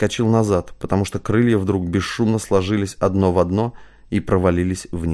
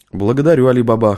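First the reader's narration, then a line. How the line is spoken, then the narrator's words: Wry snort. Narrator (Russian): хмыкнул Матвей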